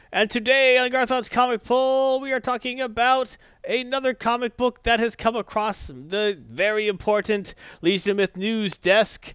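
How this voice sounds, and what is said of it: Old-timey radio announcer voice. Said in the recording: “my old-timey radio voice”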